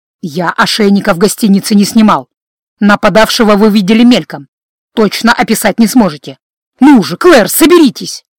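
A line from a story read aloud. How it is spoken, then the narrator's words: Sharp scolding shout. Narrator (Russian): прикрикнул он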